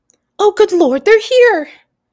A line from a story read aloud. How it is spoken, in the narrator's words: said Aunt Petunia frantically